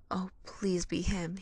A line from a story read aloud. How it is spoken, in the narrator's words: Harry whispered to himself